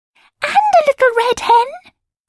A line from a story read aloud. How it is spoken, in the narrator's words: screamed the other two